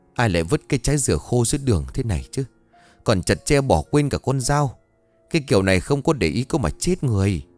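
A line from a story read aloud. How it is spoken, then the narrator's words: Angry muttering old woman. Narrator (Vietnamese): Bà tức mình lẩm bẩm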